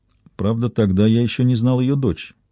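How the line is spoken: Quiet addition. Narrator (Russian): тихо добавил

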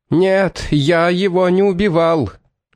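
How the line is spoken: Shouting over train noise. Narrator (Russian): крикнул Виктор, стараясь заглушить свистки и лязг колес

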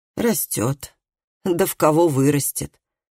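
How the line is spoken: Muttering. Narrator (Russian): пробормотала она

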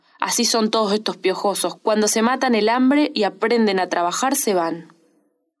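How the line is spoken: Harsh woman's voice. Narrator (Spanish): La mujer, con tono áspero, dijo

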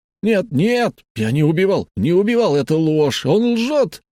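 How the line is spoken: Young man screaming. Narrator (Russian): закричал парень

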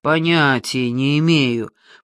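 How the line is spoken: Drawl. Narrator (Russian): протянул я

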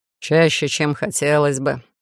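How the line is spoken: Amused snort. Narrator (Russian): хмыкнул Олаф

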